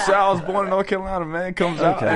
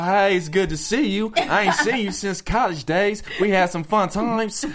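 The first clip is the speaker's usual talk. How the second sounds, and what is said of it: Southern accent, geeky character voice. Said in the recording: “this accent from like the South ... sounds like a geek, too”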